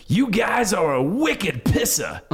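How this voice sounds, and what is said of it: Thick exaggerated Boston accent. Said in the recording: “there's a Bostonian saying... he like laid on the accent really thick”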